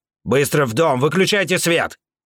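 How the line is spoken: Barked. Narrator (Russian): рявкнул Вабан

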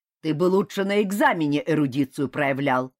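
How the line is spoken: Frowning bark. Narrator (Russian): рявкнул Вольгван, нахмурясь

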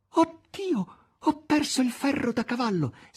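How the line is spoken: Desperate half-voiced exclamation. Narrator (Italian): Margherita, disperata, esclamò a mezza voce

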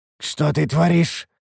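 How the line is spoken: Hoarse rasp, coughing blood. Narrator (Russian): прохрипел я, кашлянув кровью

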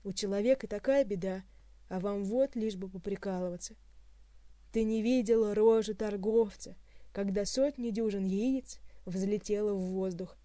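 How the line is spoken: Groaning. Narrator (Russian): простонал Хуан

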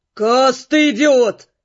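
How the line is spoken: Growling. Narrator (Russian): прорычал водник

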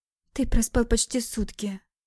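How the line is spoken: Quiet. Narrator (Russian): Тихо отвечает девушка

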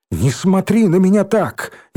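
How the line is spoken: Exasperated shout. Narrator (Russian): не выдержала Ленка и крикнула

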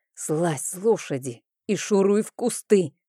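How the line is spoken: Hiss. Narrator (Russian): прошипел Рейн

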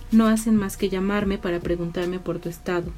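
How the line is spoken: Plain. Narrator (Spanish): dijo

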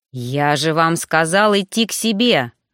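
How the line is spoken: Menacing. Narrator (Russian): грозно выдал Роган

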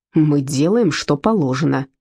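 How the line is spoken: Growled. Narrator (Russian): рыкнул Герр Таубер

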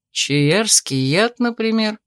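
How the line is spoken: Mocking suggestion. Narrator (Russian): насмешливо предположил Томин

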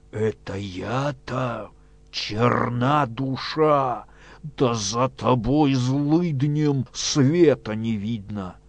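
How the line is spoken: Hoarse wheezing. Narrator (Russian): хрипя

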